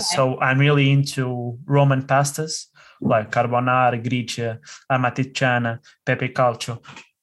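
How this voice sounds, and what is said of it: Put-on accent on food names. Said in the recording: “The accent.”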